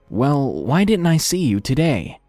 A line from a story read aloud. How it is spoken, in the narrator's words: I hesitantly asked